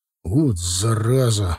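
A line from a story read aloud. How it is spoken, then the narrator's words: Upset sigh, big man. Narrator (Russian): огорченно вздохнул здоровяк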